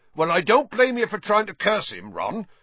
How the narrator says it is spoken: said Hagrid loudly over the thuds of more slugs hitting the basin

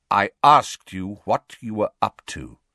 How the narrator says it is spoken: said Sirius coldly

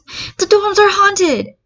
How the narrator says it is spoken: Uraraka yells

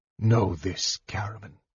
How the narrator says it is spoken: he said, and his voice was as chill as the dark waters around them

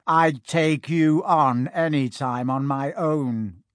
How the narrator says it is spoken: said Malfoy

